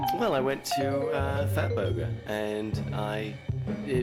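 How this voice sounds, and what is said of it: Usual voice. Nothing is said of it.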